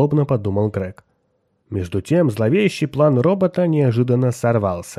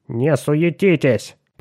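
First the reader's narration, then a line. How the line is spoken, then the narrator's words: Grumbling. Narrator (Russian): проворчал Вислер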